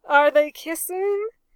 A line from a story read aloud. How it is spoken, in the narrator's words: yelled the ship's carpenter, who couldn't see